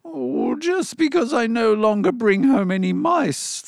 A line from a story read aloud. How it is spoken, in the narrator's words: the cat wailed